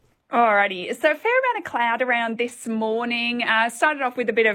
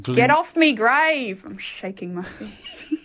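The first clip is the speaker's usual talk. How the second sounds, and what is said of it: Put-on Australian accent. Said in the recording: “You've never sounded so Aussie in your life”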